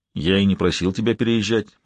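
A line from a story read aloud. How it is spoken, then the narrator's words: Even-voiced reply. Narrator (Russian): ответил он ровным голосом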